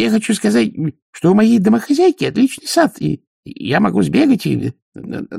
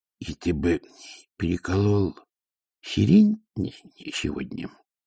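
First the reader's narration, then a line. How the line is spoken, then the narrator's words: Quiet question. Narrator (Russian): тихо спросил Колонн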